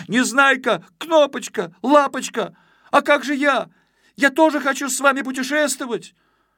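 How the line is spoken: Shout. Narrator (Russian): Почкуля пестренький и закричал

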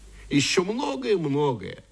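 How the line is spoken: Plain. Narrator (Russian): сказала эта улыбка

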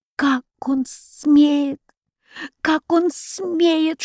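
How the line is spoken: Muffled indignant whisper. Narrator (Russian): шептал он, опустив голову на руки

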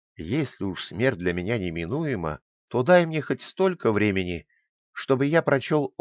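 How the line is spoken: Pleading. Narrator (Russian): взмолился хозяину

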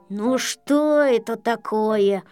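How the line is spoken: Grumbling. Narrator (Russian): проворчал Ворчун

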